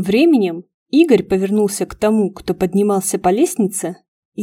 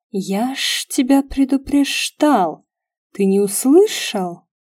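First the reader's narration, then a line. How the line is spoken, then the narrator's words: Angry hissing whisper. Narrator (Russian): человека, разговаривающего злым шипящим шепотом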